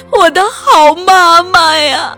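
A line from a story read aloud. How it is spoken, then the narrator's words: Crying out. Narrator (Chinese): 喊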